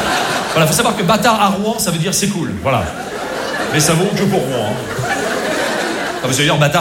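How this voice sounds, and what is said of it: Usual voice. Nothing is said of it.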